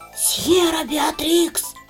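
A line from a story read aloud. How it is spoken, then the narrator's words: Ominous whisper from behind. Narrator (Russian): послышался зловещий шепот у меня за спиной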